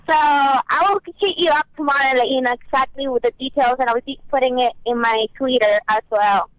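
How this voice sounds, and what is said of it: Noticeable accent. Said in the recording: “I love your accent.”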